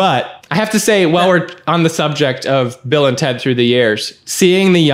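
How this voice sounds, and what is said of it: Usual voice. Nothing is said of it.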